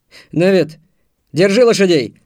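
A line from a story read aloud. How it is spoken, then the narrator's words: Shout. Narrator (Russian): крикнул Антон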